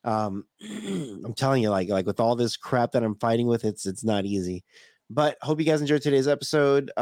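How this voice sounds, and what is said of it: Strained, nearly worn-out voice. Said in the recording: “My voice is like totally, I'm like, my voice is almost shot, man.”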